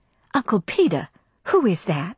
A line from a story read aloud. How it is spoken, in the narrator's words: she whispered